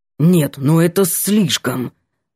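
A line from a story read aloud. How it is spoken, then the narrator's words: Angry, through teeth. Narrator (Russian): Бросил сердито сквозь зубы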